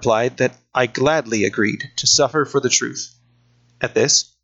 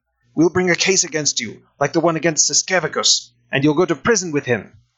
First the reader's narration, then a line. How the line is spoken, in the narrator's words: When I refused to be intimidated, Gudas began shouting